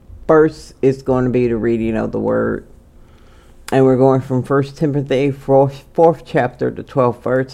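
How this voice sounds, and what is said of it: Strained voice, struggles with words. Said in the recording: “My voice is a little, uh, it's a lot off ... that's why it's hard for me to get some words out”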